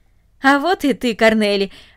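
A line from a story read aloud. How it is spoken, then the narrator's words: Joyful speech. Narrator (Russian): радостно сказал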